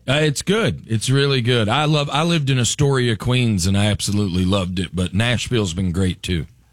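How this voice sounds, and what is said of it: Southern US accent. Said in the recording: “You have a southern accent.”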